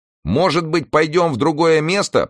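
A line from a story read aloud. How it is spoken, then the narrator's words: Shouting into ear. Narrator (Russian): прокричал Ньютон ей на ухо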